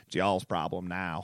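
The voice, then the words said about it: Imitates another person's voice. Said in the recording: “my Jerry Jones impression, and it was terrible”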